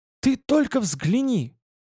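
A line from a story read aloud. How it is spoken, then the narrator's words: Exclaiming, nearly drowned out. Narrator (Russian): воскликнула она, и ее голос почти потонул в шуме музыки и гомоне толпы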